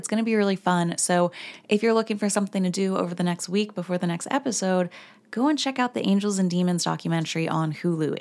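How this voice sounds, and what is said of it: Hoarse, froggy voice. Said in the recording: “I have lost my voice ... so we're a little bit froggy”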